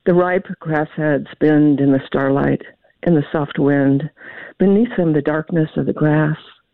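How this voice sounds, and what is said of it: Kentucky accent. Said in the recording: “hear my Kentucky accent coming through”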